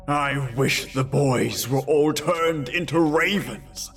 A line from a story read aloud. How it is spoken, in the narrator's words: he cried out in anger